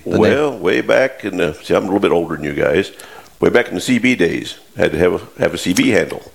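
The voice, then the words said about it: Deep gravelly radio voice. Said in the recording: “you have a good radio voice. I meant it. You know, that's deep and gravelly.”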